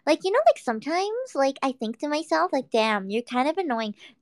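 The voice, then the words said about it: Put-on Valley girl accent. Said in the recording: “Have you tried being a valley girl? ... I can do that accent pretty damn well ... But yeah, I can do a valley girl.”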